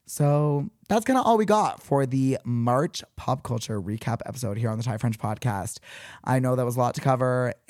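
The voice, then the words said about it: Hoarse, partly lost voice. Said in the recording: “my voice is a little bit gone”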